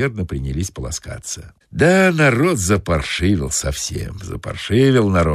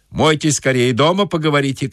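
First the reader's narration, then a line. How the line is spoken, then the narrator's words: Shouted. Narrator (Russian): крикнул банщик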